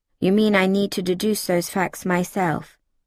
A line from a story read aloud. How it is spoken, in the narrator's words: I declared flatly, taking care to make it a statement rather than a direct query